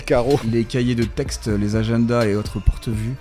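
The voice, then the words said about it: Put-on southern French accent. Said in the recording (French): “j'ai pris un accent du sud vite fait”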